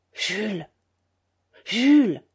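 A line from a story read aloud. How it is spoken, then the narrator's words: Panicked stammering. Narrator (French): Elle balbutiait, affolée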